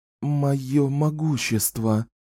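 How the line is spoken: Whisper. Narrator (Russian): прошептала Дюшаю

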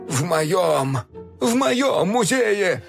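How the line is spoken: Groan. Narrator (Russian): простонал Док

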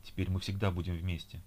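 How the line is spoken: Breathless emotional whisper. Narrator (Russian): прошептал он, задыхаясь от переполнявших его чувств

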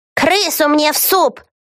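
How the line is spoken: Witch screaming. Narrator (Russian): Завопила какая-то ведьма

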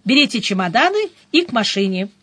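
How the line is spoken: Brisk command. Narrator (Russian): бодро заявила я и скомандовала

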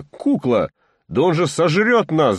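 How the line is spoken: Shouted. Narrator (Russian): закричал Коля

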